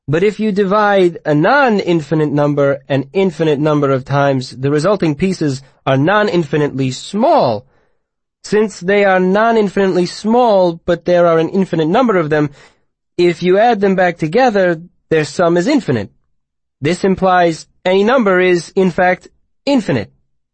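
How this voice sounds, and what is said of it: Odd foreign-sounding character accent. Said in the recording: “Urish said in his odd Lenati accent.”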